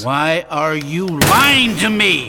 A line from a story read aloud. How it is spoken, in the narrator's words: he screamed